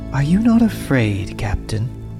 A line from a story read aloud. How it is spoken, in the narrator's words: He said, his voice was light and soft, innocent and strangely compelling